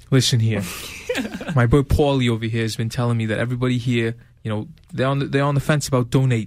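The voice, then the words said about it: Put-on threatening New York accent. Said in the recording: “in the New York accent ... And make it sound like a threat.”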